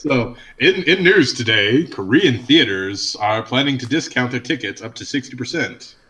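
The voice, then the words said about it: Lowered newscaster-style voice. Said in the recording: “I love your news voice ... that's my news voice. You got to go down a couple octaves, but still be high.”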